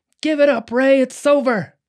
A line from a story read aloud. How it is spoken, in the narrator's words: Detective Norris yells out